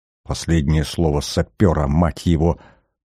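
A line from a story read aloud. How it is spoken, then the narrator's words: Gloomy muttering. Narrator (Russian): угрюмо пробормотал Смертин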